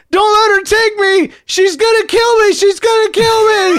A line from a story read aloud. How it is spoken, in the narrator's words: he starts screaming